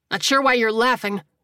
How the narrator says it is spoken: the injured gunman snapped

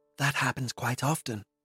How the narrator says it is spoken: whispered Smith

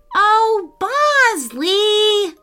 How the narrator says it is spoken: Lila cried

